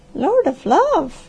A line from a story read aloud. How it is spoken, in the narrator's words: gasped